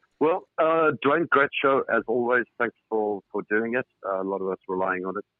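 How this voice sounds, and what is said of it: South African accent. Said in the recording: “Despite my accent, ... I'm in the United Kingdom, not in South Africa anymore.”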